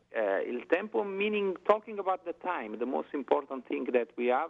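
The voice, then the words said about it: Italian accent. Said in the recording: “listen my voice with my Italian accent... it's a beautiful Italian accent”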